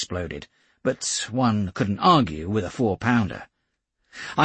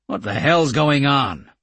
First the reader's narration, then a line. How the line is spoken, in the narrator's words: he asked loudly